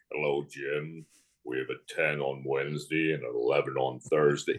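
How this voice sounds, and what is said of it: Big deep imitated voice. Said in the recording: “we'd all imitate the bishop. My father would imitate the bishop ... You know, that big voice.”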